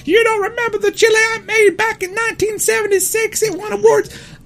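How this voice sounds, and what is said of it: Poor impression of speaker's mother. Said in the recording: “That's not how my mom talks ... that was a very poor impersonation of Nancy Christ”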